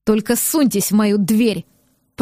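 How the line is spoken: Growling. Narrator (Russian): прорычал

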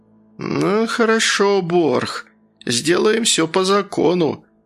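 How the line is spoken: Through clenched teeth. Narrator (Russian): староста сквозь зубы процедил

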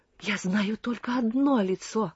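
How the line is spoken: Overjoyed, moved voice. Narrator (Russian): сказал он вдруг необычайно радостным и растроганным голосом

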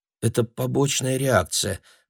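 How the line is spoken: Muttering. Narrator (Russian): пробормотала Джорджи

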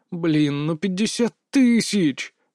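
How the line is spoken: Groan. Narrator (Russian): простонал я

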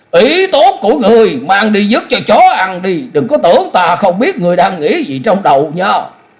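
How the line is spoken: Enraged scream. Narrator (Vietnamese): Sài Quá điên tiết thét lên

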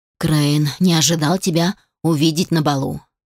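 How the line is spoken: Irritated sigh, forced smile. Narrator (Russian): Алишер раздраженно вздохнул и, натянув кривую улыбку, произнес

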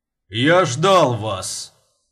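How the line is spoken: Deep bass voice. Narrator (Russian): пробасил он

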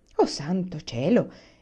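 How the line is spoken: Exclamation. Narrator (Italian): esclamò mamma

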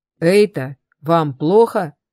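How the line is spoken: Booming deep voice. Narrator (Russian): прогремел низкий голос

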